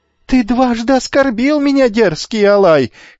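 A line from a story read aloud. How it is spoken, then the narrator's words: Shouting after someone. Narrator (Russian): кричал ему вслед опомнившийся Ликамед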